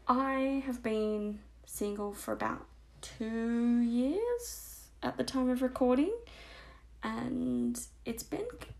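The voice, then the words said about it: Australian accent. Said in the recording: “I'm obviously Australian because of my disgusting accent.”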